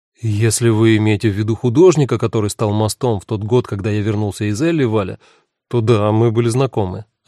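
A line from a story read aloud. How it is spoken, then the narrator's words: Plain. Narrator (Russian): ответил Симон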